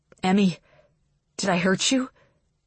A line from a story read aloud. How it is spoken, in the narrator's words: Dash asks, his voice pained